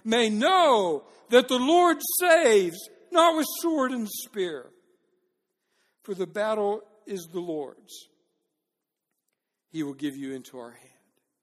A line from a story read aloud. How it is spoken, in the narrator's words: starts shouting up toward the army